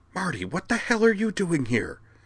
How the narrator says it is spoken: she demanded in a stage whisper

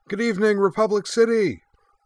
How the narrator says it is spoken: she cried

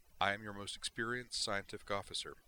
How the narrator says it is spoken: she replied calmly

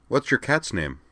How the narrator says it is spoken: Jer asked Dorothy

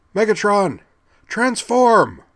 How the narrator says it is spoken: she replied to herself, and then cried aloud

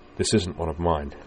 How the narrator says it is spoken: in a tight, controlled voice

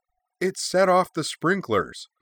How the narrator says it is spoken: Now exclaimed

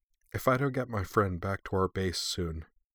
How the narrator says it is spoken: Yoshka explained softly

